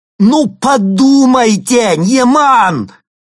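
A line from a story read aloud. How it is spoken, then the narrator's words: Shouted. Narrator (Russian): крикнул он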